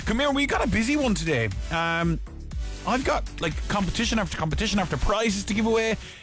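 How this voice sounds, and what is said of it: Tired, worn-out voice. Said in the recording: “Oh, a bit tired today. You can probably hear it in my voice. I was non-stop shouting ... last night, and I am wrecked.”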